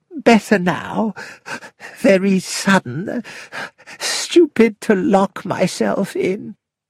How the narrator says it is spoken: she gasped

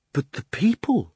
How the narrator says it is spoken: gasped Diggory

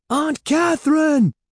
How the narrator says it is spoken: Evan screamed

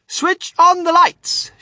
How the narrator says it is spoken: shouted Mr

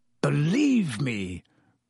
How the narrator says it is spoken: croaked Black

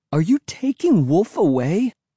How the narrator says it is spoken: repeated shrilly, my voice trembling

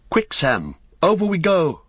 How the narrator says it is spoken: cried Frodo

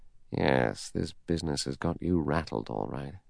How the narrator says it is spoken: He said softly to himself

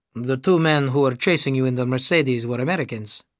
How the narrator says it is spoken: he said

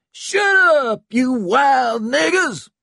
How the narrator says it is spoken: Stump screamed back

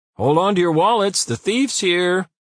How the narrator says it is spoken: Tom called out so loudly that his voice echoed through the corridors

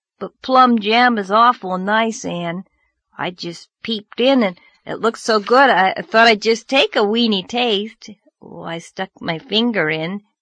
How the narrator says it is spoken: Anne groaned

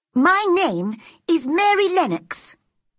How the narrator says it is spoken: she said crossly

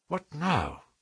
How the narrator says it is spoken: whispered Holmes

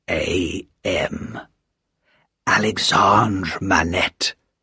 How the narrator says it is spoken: said softly

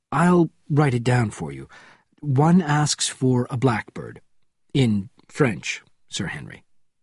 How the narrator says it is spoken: said the deputy director, speaking calmly despite the fact that his hand shook

